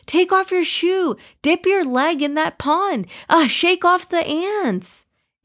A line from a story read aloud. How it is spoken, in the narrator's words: Ibrahim yelled